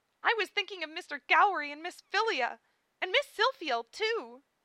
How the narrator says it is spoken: Amelia cried defensively

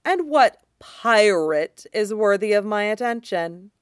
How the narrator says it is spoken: sneers

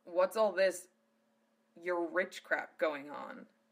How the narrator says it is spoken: Zell spat through gritted teeth

